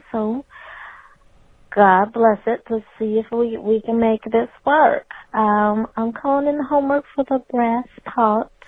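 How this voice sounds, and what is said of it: Put-on Southern drawl. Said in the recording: “My voice is a little bit better this week, so I thought I might throw in my little southern drawl”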